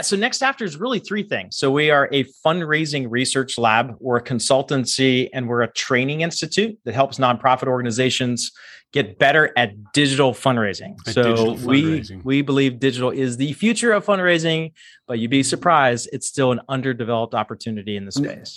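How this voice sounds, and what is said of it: Smooth resonant radio-style voice. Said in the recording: “You've got a great like radio voice going there.”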